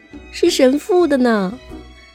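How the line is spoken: Crying. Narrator (Chinese): 小芳哭着说

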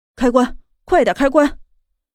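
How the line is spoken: Roaring, nearly weeping with joy. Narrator (Chinese): 男子几乎是喜极而泣，吼道

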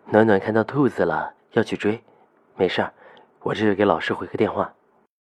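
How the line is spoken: Calm, unhurried voice. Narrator (Chinese): 夏医生声音云淡风轻的不着急

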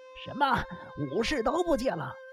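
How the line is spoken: Startled exclamation. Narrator (Chinese): 仙师直纪听了，不禁张大眼睛叫道

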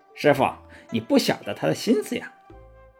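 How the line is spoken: Chuckling. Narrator (Chinese): 孙悟空嘿嘿一笑说

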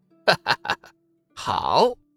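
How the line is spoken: Laughing. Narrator (Chinese): 冷风笑道

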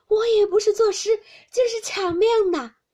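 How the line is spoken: Laughing. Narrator (Chinese): 湘云笑道

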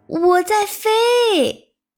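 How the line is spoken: Loud shout. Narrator (Chinese): 他大声喊

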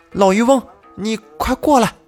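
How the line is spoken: Loud shout. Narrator (Chinese): 柳京大声的喊道

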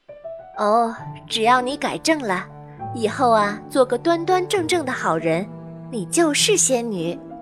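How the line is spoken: Gentle. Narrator (Chinese): 仙女姐姐温柔地说

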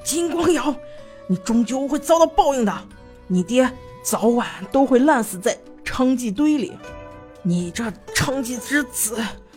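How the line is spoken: Desperate roar through teeth. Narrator (Chinese): 何素满面绝望的咬了咬牙，咆哮道

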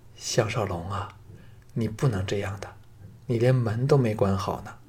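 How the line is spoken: Trembling pleading. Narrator (Chinese): 颤声求道

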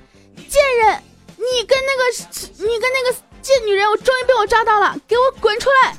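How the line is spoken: Shouting in hallway. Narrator (Chinese): 住宿层里面走廊里面大喊了一句

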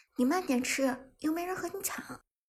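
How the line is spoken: Smiling. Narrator (Chinese): 伍兹可笑着说道

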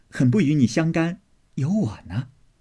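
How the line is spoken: Laughing. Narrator (Chinese): 鸳鸯笑道

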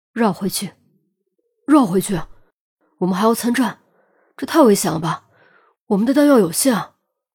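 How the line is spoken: Deep, grave voice. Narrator (Chinese): 陈红沉声道

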